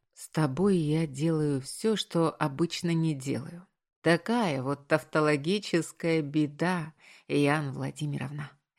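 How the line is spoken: Summarizing tone. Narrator (Russian): резюмировал я

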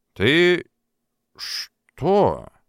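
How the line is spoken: Strained, forced out. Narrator (Russian): с трудом выдавил Африканов из себя

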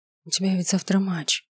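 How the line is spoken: Whispering. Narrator (Russian): прошептала я

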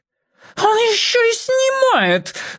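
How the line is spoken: Woman's shriek. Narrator (Russian): взвизгнула дама

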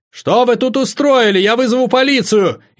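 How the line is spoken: Woman's frantic scream. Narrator (Russian): Истошно закричала женщина

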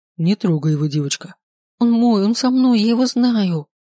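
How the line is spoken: Tearful trembling whisper. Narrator (Russian): Шепчу сквозь слезы, колотит уже всю

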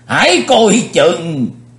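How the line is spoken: Alarmed cry. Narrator (Vietnamese): lão Tây Nhạc Lăng Di Phong cũng phải bật kêu lên

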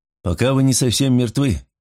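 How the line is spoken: Gloomy reply. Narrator (Russian): мрачно отозвался Николсон

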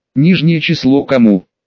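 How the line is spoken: Quiet question. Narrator (Russian): тихо спрашиваю

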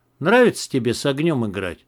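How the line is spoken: Gloomy. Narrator (Russian): мрачно сказал Макс

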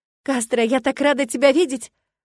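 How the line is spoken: Sobbing, muffled. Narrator (Russian): всхлипывала я у него на плече

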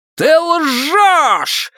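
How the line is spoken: Yelling in face. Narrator (Russian): заорал он ей в лицо

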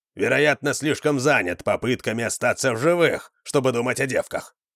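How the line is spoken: Grumble. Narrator (Russian): пробурчал Вандар

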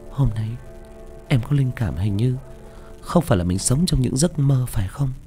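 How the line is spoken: Whispering. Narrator (Vietnamese): nàng thì thầm

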